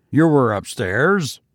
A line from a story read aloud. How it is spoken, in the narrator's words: growled Tusman